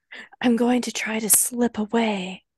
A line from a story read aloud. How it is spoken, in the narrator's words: Gawyn whispered